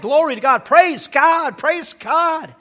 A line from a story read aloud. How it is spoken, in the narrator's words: one of the 10 lepers, when he saw that he was healed, he shouted